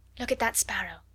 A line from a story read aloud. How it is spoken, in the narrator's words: whispered Sarah